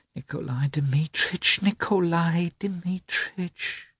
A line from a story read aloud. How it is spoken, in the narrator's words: whispered Maria Nikolaevna